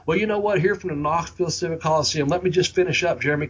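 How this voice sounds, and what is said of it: Southern US accent. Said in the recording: “this old Southern accent, old Bobby over there in Ashland, Kentucky”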